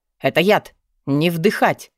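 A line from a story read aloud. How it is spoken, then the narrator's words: Shout. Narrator (Russian): крикнул Вёлвинд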